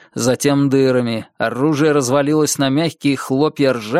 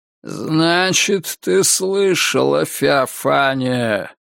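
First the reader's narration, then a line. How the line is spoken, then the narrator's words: Grating, cavernous echo. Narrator (Russian): проговорил он скрежещущим голосом, будто эхо со дна пещеры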